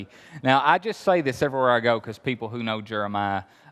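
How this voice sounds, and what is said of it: Appalachian Kentucky accent. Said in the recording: “You hear the accent? I'm really from Kentucky ... I'm from Appalachia”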